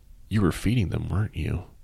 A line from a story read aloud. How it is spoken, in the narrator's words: she said